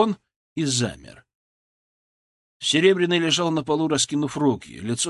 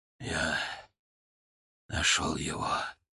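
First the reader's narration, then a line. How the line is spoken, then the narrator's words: Hoarse rasp. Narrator (Russian): прохрипел он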